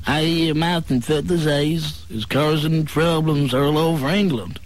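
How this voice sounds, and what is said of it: Stereotypical put-on American accent. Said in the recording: “I was doing a very stereotypical American accent”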